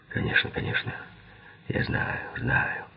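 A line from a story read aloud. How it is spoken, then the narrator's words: Whisper. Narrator (Russian): прошептал Киган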